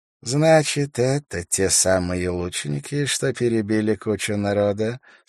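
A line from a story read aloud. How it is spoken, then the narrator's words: Plain. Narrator (Russian): спросил Ташак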